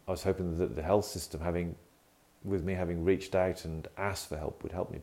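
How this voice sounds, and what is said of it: British accent. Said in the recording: “in the UK, as you can probably tell from my accent”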